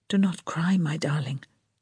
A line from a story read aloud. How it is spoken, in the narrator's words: he whispered